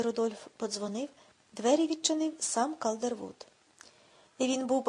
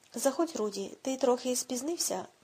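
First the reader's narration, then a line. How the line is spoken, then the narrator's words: Neutral tone. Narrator (Ukrainian): мовив той нейтральним тоном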